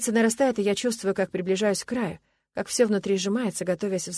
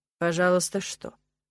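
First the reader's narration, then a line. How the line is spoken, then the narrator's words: Calm question. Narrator (Russian): спрашивает спокойно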